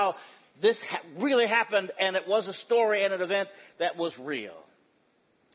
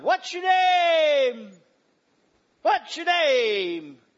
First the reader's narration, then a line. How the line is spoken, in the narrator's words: he hollered